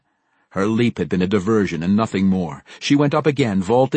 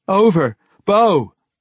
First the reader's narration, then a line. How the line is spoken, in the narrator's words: Dahlia yelled